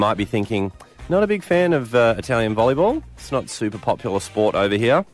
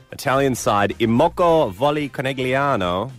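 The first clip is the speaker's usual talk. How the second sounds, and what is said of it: Put-on Italian accent. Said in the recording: “That's my Italian accent there.”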